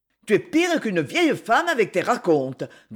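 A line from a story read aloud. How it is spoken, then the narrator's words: Grumbling. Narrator (French): grommela Philippe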